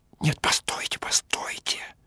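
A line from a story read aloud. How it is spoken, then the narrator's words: Whisper in the ear. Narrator (Russian): Он на ухо шепотом продолжал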